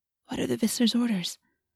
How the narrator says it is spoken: She asked in a whisper

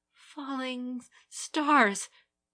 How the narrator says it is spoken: gasped, not sure if her voice echoed in her ears or merely in the vision

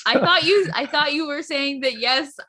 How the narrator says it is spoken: I laughed six times

